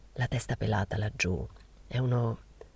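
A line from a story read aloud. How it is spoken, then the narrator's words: Impassive murmur. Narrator (Italian): Sempre impassibile mormorando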